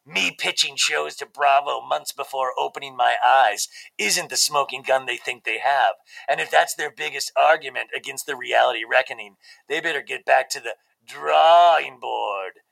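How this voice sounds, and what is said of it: Imitates another person's voice. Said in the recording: “that's a really good imitation, actually. Except my mouth wasn't full and I wasn't chewing at the time.”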